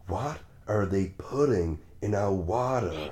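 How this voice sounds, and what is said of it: Put-on American accent. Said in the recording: “I like your American accent”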